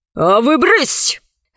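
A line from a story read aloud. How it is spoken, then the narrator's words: Harsh bark. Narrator (Russian): рявкнула на рабынь надсмотрщица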